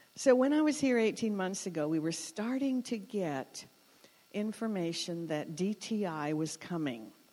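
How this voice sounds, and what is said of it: Foreign-sounding accent. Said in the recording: “I'm told I'm the one with the accent”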